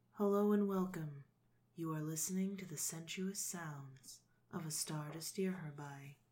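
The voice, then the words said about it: Whispered ASMR-style voice. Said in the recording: “Do the whispering ... I don't know how to do the ASMR thing. That's not ASMR. That sounds horrible.”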